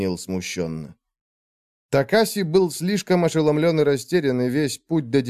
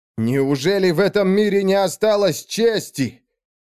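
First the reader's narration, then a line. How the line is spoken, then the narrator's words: Shout into darkness. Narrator (Russian): крикнул Такаси в темноту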